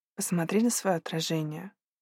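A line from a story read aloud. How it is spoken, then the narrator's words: Quiet speech. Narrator (Russian): тихо сказал Макс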